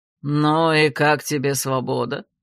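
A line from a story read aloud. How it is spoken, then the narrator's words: Mocking question. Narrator (Russian): насмешливо интересуется у брата владыка ночи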